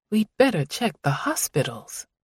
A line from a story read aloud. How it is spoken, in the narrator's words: she muttered